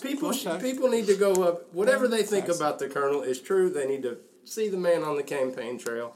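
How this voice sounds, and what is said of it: Fairly strong Southern US accent. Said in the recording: “you got a fairly strong Southern accent there ... it's a good radio voice”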